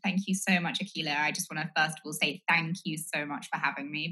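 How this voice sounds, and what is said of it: Speaks with an accent. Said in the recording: “You say it better with your accent.”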